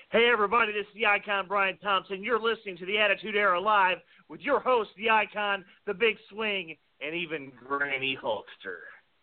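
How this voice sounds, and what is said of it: Wrestling ring announcer voice. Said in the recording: “do it in your best ring voice”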